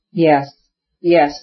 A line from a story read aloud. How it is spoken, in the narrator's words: said Stepan Arkadyevich, not able to answer for the tears that were choking him